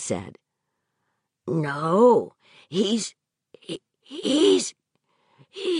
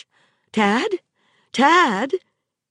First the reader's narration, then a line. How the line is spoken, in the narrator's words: Tad gasped